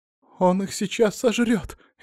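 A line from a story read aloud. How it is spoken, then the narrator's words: Frightened exclamation. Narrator (Russian): испуганно воскликнула Дарина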